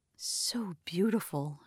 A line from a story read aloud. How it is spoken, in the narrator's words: she whispered